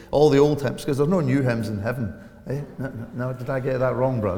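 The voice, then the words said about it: Strong regional accent, hard to understand. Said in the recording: “I'm just blethering so as you get a handle on the accent, yeah? Anybody understand me yet? No.”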